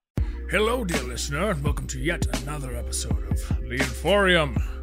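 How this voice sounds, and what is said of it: Silly put-on voice. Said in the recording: “I'm sitting here listening to that voice ... the stupid voice”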